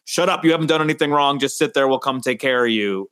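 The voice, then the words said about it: Put-on New York cop accent. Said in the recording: “I dropped into some sort of accent for a second there. that was my cop accent. ... Well, Long Island or from Westchester?”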